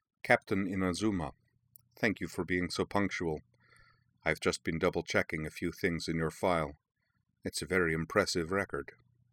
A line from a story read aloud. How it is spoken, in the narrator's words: smiled thinly at her and said, in a low voice, touched with a faint accent